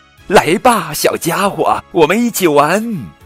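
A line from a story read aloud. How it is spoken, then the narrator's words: Ecstatic loud shout. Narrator (Chinese): 小帕欣喜若狂，大声喊道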